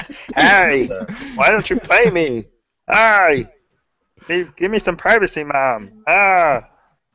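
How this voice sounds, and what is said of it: Imitation of a sitcom character's voice. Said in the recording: “That's a scarily good impersonation.”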